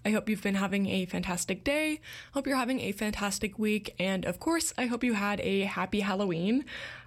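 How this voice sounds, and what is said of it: Slightly rough, rugged voice. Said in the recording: “there's like something caught in my throat that likes to make itself known every now and again ... my voice sounds a little bit more rugged at points”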